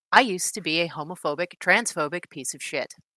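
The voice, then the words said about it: Slightly sultry customer-service reading voice. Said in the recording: “Let me get my reader voice on. It's a little bit like my customer service voice, but slightly sultrier.”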